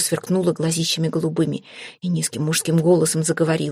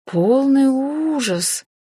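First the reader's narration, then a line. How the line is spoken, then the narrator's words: Market-vendor drawl. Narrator (Russian): как торговка на базаре протянула я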